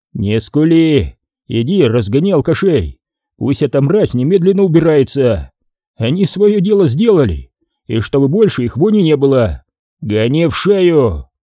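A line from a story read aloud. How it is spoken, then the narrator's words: Boss's commanding voice. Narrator (Russian): Командирским голосом распорядился шеф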